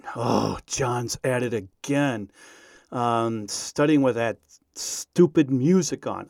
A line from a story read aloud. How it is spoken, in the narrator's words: he said in a disgusted voice